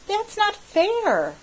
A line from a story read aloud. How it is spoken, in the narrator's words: I exclaimed